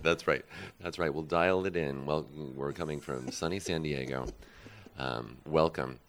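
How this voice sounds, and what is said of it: Low, strained voice. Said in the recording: “my voice is a little bit low ... Karaoke may have something to do with it.”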